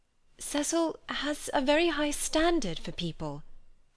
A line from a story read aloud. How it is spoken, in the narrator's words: faltered Lucy, seeing trouble ahead